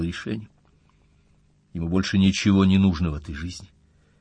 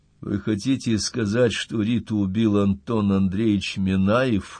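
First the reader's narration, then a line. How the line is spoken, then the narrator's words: Muffled question. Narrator (Russian): глухо спросил он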